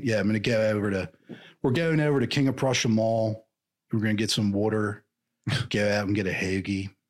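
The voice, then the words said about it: Put-on Philly accent. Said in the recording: “the Philly accent ... it sounds a little Southern ... a little surferish sometimes”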